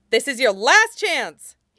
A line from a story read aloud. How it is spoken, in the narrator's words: he shouts